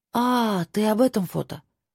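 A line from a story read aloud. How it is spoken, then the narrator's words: Drawn-out. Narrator (Russian): протянула я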